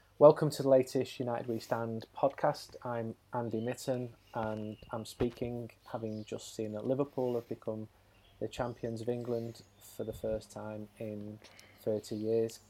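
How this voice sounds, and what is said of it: Flat, deliberately unenthusiastic tone. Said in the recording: “Can you not just hear the enthusiasm in my voice?”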